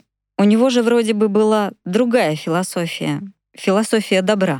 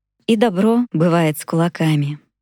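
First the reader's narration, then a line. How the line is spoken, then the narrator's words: Calm answer. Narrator (Russian): спокойно ответил сенсей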